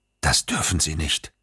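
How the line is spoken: Whisper. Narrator (German): flüsterte er

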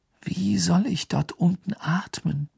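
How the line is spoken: Slow. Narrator (German): sagte Harry langsam

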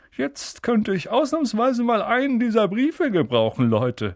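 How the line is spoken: Cheerful. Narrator (German): sagte er fröhlich

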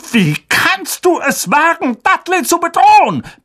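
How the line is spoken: Roar. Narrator (German): brüllte Onkel Vernon

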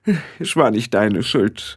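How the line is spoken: Said with a sigh. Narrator (German): sagte sie und nahm seufzend am Tisch Platz

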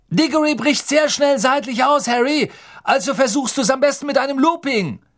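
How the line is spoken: Calling after someone. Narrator (German): Wood rief ihm nach

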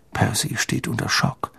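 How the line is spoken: Quiet. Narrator (German): sagte George leise zu Harry

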